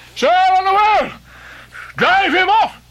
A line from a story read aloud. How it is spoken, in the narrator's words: he shouted